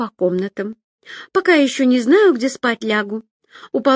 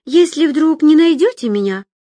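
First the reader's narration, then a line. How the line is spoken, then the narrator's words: Exclaiming. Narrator (Russian): воскликнула Агата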